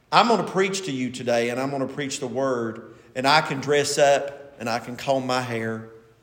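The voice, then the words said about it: Eastern Kentucky Appalachian accent. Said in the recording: “my Mingo County, Eastern Kentucky accent ... I don't say light and right, and I don't do very well at that”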